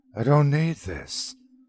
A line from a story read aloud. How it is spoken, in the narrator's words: sighed